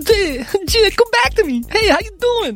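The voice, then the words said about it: John Travolta impression. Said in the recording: “I could do a John Travolta impression ... it's terrible”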